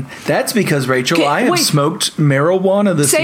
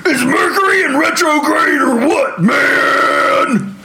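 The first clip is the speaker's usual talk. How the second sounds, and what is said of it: Imitates another person's voice. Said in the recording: “Say it in Alex Jones's voice.”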